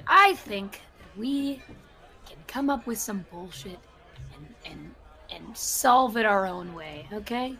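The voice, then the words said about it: Lowered, quieter voice. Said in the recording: “I want to lower my voice a little bit.”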